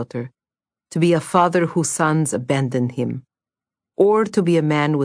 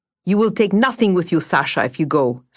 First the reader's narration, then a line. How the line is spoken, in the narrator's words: snapped Pyotr